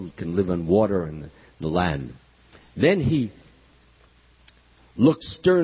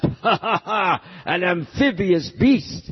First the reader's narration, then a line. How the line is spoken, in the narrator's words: envying his splendor, the demon laughed